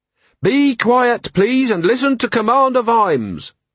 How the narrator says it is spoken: bellowed Carrot

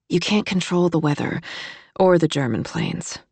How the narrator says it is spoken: Kate said sleepily

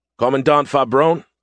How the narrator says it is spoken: I called out

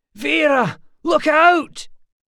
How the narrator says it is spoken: Someone shouted

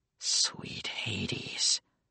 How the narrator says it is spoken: muttered Nico

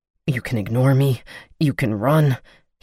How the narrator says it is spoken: he said, grunting

